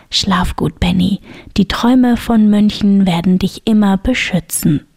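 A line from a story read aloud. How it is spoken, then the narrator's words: Gentle whisper. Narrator (German): flüsterte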